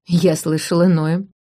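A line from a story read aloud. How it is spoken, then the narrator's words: Snort. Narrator (Russian): фыркнул Алис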